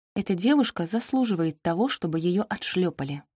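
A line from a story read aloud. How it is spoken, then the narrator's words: Whisper. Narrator (Russian): прошептала я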